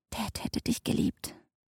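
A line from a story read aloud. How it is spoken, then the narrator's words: Whispered. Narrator (German): flüsterte sie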